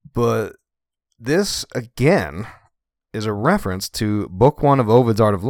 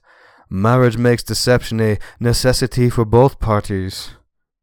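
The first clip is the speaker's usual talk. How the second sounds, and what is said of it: Put-on French accent. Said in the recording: “I'm giving him a French accent.”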